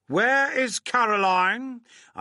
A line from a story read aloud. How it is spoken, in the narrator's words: I shouted, a little out of breath